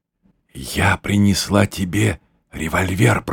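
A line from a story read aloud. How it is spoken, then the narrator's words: Whispered. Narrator (Russian): прошептала она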